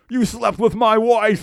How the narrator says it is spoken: he screams

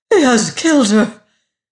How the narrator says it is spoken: she exclaimed

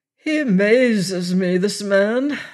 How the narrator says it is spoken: said he in his slow, languid voice that never seemed to change its level

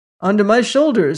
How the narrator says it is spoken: cried

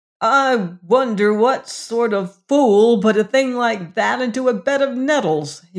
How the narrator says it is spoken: exclaimed

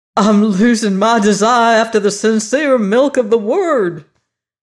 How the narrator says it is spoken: he shouted very loud

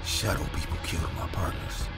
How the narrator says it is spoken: He was muttering

